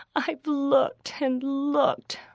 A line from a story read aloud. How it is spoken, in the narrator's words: Rachel groaned